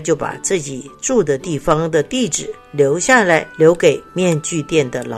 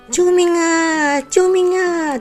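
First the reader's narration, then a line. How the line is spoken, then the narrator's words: Faint cries for help. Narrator (Chinese): 呼叫声，声音听起来很微弱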